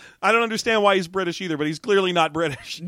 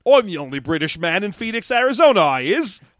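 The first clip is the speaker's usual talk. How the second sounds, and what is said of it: Deliberately bad fake British accent. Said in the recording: “put on the worst British accent you can ... a dude with the shitty British accent like we are doing”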